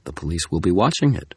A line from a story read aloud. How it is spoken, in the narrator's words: Tara said